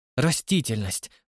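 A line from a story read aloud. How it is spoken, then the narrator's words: Frightened woman. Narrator (Russian): произнесла Марша, испуганно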